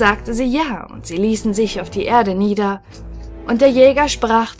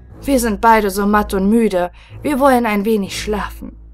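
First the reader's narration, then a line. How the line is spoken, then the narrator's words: Weary, exhausted speaking. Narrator (German): weil er von dem Feuer und dem Kampf so matt und müde war, sprach er zur Jungfrau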